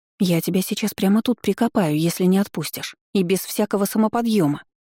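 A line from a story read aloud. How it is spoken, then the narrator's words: Threatening breathy whisper. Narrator (Russian): угрожающе выдохнула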